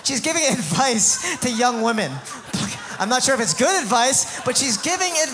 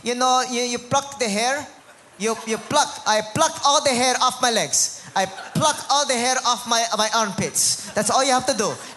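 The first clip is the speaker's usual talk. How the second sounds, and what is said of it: Imitated heavy Filipino accent. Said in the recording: “heavy Filipino accent”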